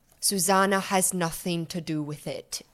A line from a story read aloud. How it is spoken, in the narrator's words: looks very gravely at you and says